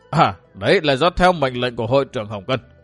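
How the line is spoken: Trembling reply. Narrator (Vietnamese): lại run run thân mình đáp

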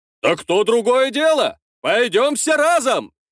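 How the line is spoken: Shout. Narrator (Russian): прокричал один из ратников тайной стражи

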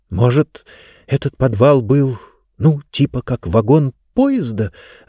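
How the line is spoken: Confused whisper. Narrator (Russian): растерянно прошептала Диба

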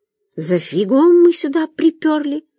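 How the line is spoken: Anguished exclamation. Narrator (Russian): с тоской воскликнула Машка

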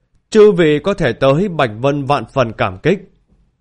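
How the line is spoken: Loud address. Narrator (Vietnamese): lớn tiếng nói

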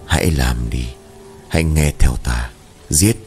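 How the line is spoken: Hoarse, cold, low voice. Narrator (Vietnamese): Hắn miệng khàn khàn nhỏ giọng nói, chất giọng khàn đặc máu lạnh vang lên

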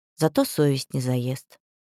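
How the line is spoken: Calm reply. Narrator (Russian): спокойно ответила Авигея

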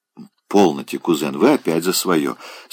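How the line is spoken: Not quite indifferent tone. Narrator (Russian): сказала она, но не совсем равнодушным тоном

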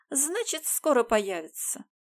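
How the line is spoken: Carefree voice. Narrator (Russian): беззаботным голосом прибавила

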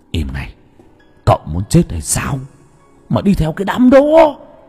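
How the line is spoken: Familiar whisper. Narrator (Vietnamese): giọng nói thì thầm quen thuộc vang lên

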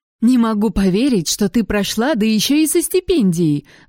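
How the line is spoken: Excited exclamation. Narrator (Russian): воскликнула моя мама, подпрыгивая

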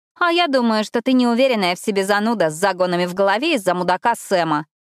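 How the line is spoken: Snorting retort. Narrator (Russian): фыркнула Эшли

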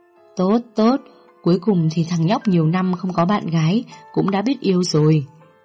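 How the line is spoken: Laughing, pleased. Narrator (Vietnamese): Chú Sáu cười lớn với vẻ hài lòng

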